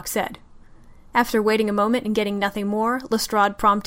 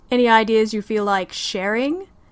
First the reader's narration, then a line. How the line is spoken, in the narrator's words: John bit his lip to hold in a chuckle